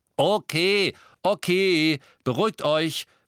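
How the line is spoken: Called out. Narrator (German): rief Neville

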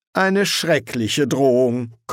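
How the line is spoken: Mocking comment. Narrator (German): kommentierte Newt spöttisch

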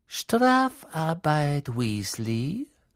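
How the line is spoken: Oily voice, close up. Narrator (German): sagte Snape mit öliger Stimme, das Gesicht ganz nahe an dem Rons

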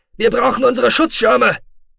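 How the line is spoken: Screaming. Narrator (German): schrie er

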